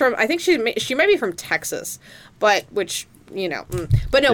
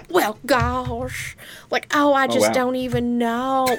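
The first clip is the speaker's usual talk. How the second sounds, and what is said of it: Put-on Southern accent. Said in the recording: “has a Southern accent? ... she talks like she's from like Oklahoma.”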